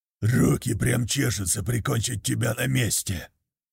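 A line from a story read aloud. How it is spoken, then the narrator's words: Man growling. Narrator (Russian): прорычал мужчина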